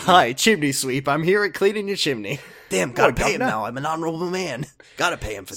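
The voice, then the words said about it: Imitates another person's voice. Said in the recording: “I was doing Leo voice. ... Hi, Leo impersonator.”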